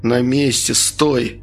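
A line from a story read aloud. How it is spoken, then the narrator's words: Answered through clenched teeth. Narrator (Russian): ответил я сквозь зубы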